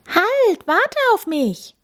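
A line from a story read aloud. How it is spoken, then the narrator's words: Calling after someone. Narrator (German): ruft Tami dem kleinen Tierpfleger hinterher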